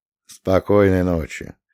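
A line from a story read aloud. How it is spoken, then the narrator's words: Soft. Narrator (Russian): мягко сказал Миша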